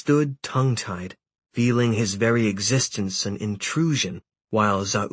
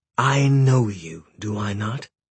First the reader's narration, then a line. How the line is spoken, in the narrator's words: he said